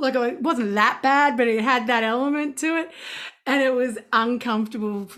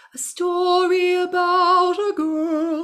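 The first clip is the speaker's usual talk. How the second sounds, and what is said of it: Sung in overly classical style. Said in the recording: “I was singing in a classical way too much”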